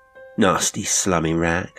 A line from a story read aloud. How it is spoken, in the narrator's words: I said